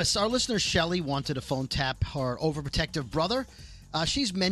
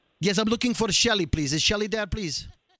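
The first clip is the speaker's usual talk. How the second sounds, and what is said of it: Put-on foreign accent, not well done. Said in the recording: “this guy with an accent ... I call him up as that guy. ... With an accent? Yeah. You're not good with accents. ... Let's listen to this accent.”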